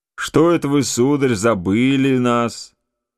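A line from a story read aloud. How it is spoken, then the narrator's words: Plain. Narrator (Russian): сказал он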